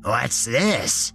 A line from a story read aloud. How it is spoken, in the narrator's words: he demanded in his croaky voice